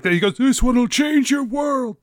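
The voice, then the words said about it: Convincing impression of another man. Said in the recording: “That's a really good impression, man. ... it almost sounded like you were a completely different person.”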